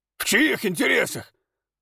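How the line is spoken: Shouted. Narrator (Russian): выкрикнул кузнец

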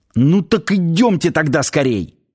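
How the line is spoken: Exclaiming. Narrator (Russian): воскликнул начальник гарнизона

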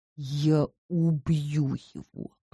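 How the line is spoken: Hiss. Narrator (Russian): прошипел Макс

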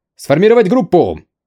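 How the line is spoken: Roar. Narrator (Russian): проревел Чен Шитоу

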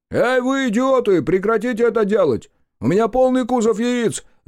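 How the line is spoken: Shouting trucker. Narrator (Russian): закричал дальнобойщик

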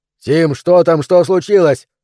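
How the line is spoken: Shout. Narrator (Russian): крикнул Трой

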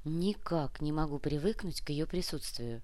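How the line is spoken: Quiet. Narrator (Russian): тихо сказала Яна

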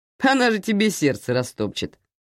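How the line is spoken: Laughing. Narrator (Russian): рассмеялся он

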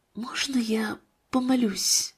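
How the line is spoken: Quiet speech. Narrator (Russian): Марина тихо сказала

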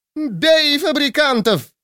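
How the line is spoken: Screaming yell. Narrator (Russian): завопила судья

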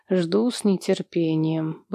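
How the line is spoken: Mumbled reply. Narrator (Russian): бормочу в ответ

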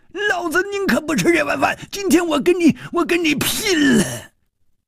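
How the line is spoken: Wild roar. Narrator (Chinese): 马脸汉子狂吼了一声

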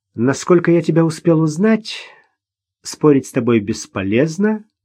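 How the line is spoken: Sigh. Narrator (Russian): вздохнул Ростовцев

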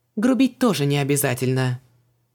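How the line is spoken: Indignant snapping. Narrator (Russian): огрызнулась Вон, возмущенная до глубины души

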